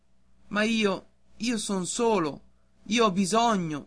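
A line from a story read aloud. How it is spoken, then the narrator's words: Boy's pleading exclamation. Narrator (Italian): esclamò il ragazzo con voce di preghiera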